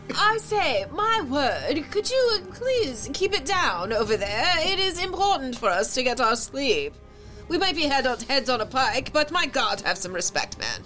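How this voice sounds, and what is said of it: Put-on posh royal British accent. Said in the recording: “I only have one royal accent, and that seems to be it.”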